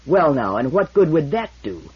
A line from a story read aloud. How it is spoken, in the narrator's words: demanded the man, fiercely